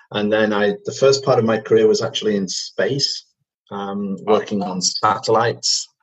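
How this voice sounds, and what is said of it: British Manchester accent. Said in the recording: “as you can probably tell from my accent, I'm British. I come from Manchester”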